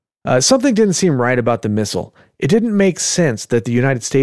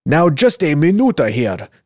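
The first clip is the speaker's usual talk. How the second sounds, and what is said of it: Bad put-on Russian accent. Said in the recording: “whatever bad Russian accent I can come up with”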